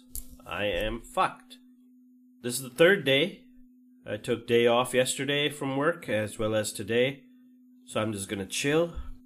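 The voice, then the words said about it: Sick, rough-sounding voice. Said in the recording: “I'm still sick. My voice might be coming off as fucked up, but it's because it is.”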